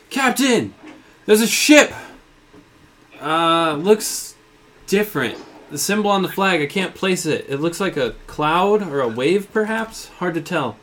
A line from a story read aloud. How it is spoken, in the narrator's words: Cloud is up in the crow's nest, yells to you